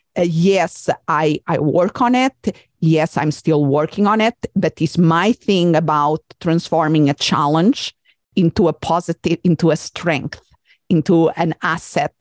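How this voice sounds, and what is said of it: Non-native English accent. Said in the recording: “my accent ... communicating in a language that is not my first language”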